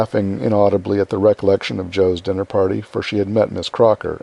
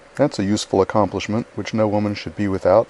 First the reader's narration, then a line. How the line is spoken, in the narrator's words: said